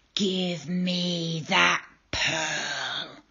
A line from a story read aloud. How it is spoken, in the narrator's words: roared the eel